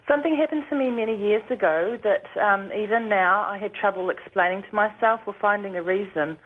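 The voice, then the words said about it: New Zealand accent. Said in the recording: “I hope you can understand my accent. ... Is that an Australian accent, by the way? ... Actually, I'm a New Zealander.”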